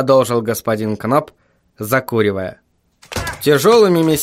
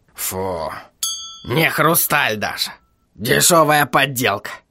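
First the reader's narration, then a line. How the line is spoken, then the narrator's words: Scoffing snort. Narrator (Russian): хмыкнул он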